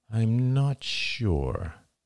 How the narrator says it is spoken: he said slowly

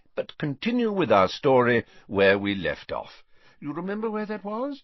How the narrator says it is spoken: said Dumbledore more kindly

